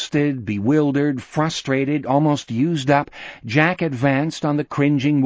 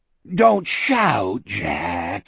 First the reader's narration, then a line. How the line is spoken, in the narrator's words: he moaned